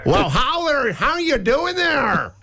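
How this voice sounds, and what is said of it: Attempted American accent sounding Irish. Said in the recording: “How's the American accent going? ... that's a very good Irish, but the American...”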